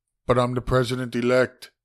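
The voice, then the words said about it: Poor imitation of another person's voice. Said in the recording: “That is the worst Trump impersonation.”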